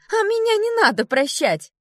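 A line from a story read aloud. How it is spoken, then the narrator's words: Shouted out. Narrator (Russian): выкрикнула Элли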